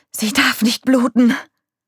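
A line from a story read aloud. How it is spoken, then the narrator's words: Gasping. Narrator (German): keuchte Nick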